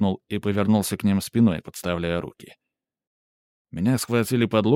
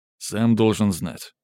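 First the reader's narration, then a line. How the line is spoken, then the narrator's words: Angry grumble. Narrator (Russian): зло буркнул второй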